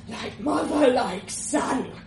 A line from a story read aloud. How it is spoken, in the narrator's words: he rasped, spitting pink gobs of blood